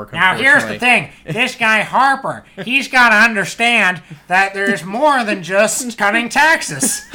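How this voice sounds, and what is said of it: Bad impression of another person's voice. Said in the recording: “such a bad Rick Mercer impression”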